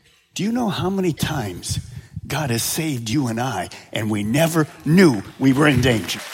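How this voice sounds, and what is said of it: Usual voice. Nothing is said of it.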